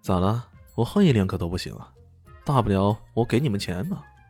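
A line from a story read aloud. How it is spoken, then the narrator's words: Said smiling. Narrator (Chinese): 笑眯眯的说道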